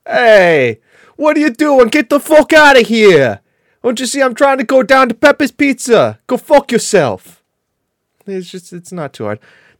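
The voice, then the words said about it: Put-on New York accent. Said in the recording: “New York. It's like, hey, I'm walking here.”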